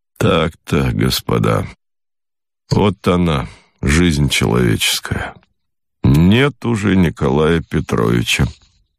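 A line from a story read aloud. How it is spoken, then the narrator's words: Slow, older doctor. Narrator (Russian): старший доктор произнес медленно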